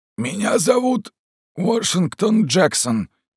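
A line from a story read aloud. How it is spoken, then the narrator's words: Hoarse wheezing man. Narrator (Russian): прохрипел негр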